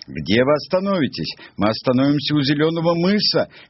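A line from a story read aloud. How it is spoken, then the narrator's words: Birds shouting. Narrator (Russian): кричали кулики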